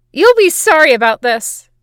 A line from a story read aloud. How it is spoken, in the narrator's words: boy yells